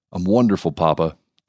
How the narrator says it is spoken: Dave said

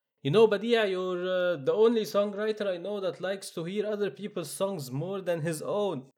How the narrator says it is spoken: Darwish shouts from atop the stage

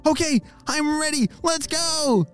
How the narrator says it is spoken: shouted Olly

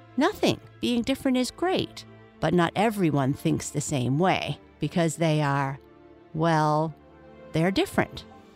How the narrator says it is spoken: Rachel said

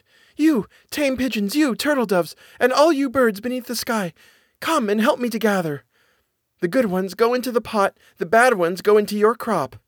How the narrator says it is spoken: The girl called out

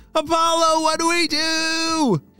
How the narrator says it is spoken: They all were shouting

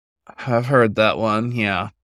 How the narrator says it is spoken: Paul sighed

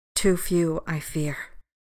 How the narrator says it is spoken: she said softly

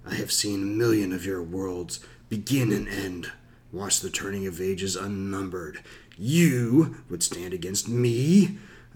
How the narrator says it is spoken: A deep, rumbling chuckle filled with mockery

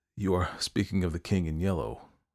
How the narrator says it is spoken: I groaned with a shudder

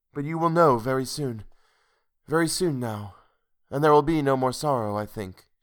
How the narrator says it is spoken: added timidly

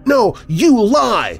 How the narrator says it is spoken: I screamed

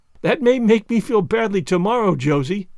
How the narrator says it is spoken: laughed Anne

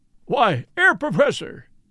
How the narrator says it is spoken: cried out Lord John

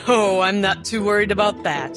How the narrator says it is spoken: Inspector Greymore laughed

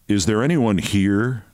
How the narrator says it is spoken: She laughed louder than ever

